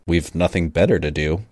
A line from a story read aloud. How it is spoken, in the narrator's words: Regan said dryly